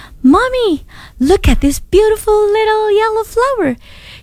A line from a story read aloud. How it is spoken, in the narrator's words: said happily